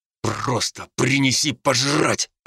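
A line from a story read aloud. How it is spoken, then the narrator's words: Growling. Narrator (Russian): прорычал я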